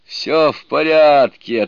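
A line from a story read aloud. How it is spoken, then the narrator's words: Laughing reply. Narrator (Russian): отвечал, смеясь, Суню-кун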